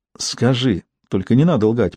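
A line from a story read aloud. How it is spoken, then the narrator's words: Whispering. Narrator (Russian): прошептала Руфина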